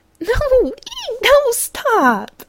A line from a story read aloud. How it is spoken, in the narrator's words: she hadn't been giggling in hysterically high pitches as she struggled